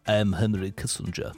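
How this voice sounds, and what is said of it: Henry Kissinger impression. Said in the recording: “Henry Kissinger obviously has that frequently impersonated voice”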